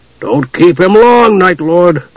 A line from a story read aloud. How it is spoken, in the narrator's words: the jailer growled